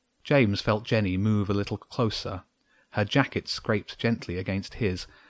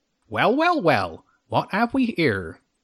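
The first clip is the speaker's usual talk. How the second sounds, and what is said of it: Fox character with country accent. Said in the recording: “It had a country accent”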